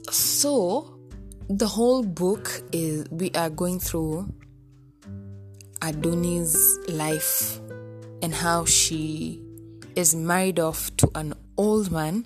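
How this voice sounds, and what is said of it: Raspy, hoarse voice. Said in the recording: “sorry, I don't know why my throat is, my throat is raspy. I don't know, maybe it's cold”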